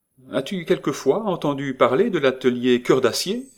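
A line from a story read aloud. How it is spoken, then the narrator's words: Sudden feigned cheerful exclamation. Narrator (French): s'écria tout à coup Nita en jouant la gaieté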